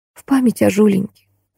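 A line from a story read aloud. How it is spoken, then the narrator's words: Quiet. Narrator (Russian): тихо произнесла подруга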